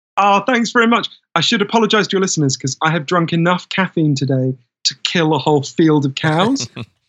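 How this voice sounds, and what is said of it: Posh upper-class British accent. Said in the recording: “my weird Downton Abbey accent is incomprehensible to most Americans”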